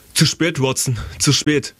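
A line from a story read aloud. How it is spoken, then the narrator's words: Called out. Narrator (German): rief Holmes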